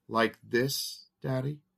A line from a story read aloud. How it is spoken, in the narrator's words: asked